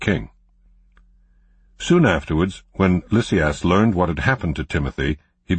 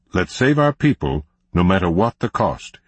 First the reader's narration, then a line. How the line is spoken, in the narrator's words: he said